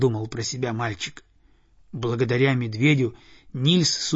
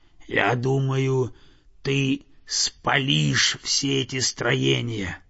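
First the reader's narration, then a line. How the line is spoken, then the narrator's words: Bear's growl. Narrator (Russian): прорычал медведь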